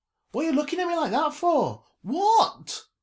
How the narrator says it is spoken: Her voice had cracked and taken her by surprise

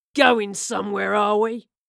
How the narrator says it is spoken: a voice snarled from below

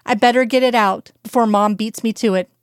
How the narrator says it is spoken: said with a chuckle

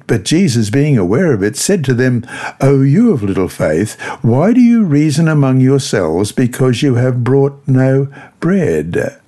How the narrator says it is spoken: Jesus exclaims

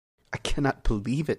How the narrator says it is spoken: whispered

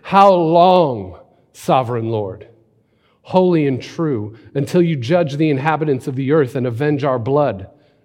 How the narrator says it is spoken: called out in a loud voice

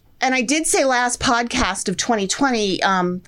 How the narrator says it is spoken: Chris cried

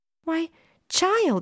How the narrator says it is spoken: she said excitedly

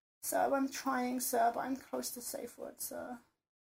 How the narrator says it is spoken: I mumbled miserably

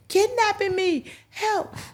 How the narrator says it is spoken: you start screaming again

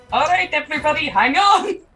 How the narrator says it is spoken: Ran shout up

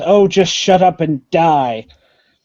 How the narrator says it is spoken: She growls at you and says

